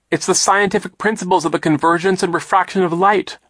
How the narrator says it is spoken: Violet cried

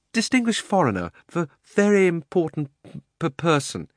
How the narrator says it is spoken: he stammered

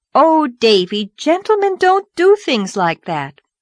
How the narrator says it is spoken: Anne promptly exclaimed, with her best schoolma'am air

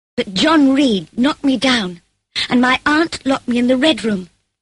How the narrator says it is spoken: I cried

